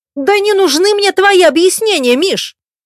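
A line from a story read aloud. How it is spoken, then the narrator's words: Impatient bark. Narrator (Russian): Рявкнула я, теряя терпение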